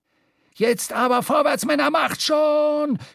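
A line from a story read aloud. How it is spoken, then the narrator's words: Shouting while puffing, bubbling. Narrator (German): schrie Stubbs, wobei er blubbernd Rauchwolken ausstieß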